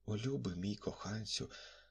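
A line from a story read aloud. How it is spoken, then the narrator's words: Faint, breathless voice. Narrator (Ukrainian): сказала вона завмерлим голосом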